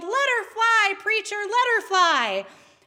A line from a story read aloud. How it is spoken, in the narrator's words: again, even louder this time, someone yelled